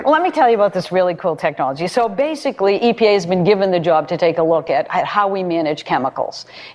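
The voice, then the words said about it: Strong Boston accent. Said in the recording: “You're not even embarrassed by your Boston accent... You're not trying to suppress it. You're just laying it all out.”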